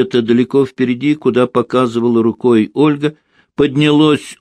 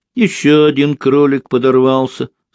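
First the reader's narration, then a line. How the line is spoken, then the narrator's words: Plain. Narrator (Russian): сказала Ольга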